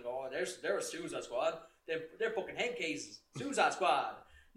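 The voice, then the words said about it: Put-on accent. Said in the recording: “I love the accent, man. ... I don't know why I do the accent when I do it.”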